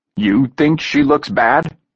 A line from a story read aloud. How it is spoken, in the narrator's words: Hunter snarled